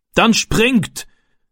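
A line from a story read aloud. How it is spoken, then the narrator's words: Man calling. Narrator (German): rief der Mann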